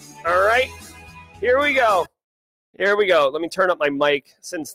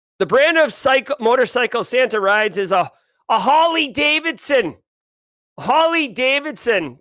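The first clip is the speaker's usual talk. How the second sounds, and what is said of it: Boston accent. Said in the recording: “I do have to read this in my actual Boston accent, not my radio voice”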